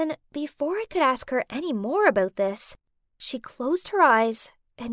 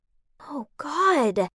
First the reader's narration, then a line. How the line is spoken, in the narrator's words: I gasped in shock